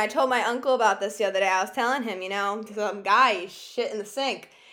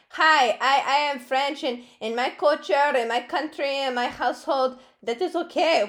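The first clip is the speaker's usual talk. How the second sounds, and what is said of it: Put-on French accent. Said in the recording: “My uncle is French. I don't know if that's a very good French accent”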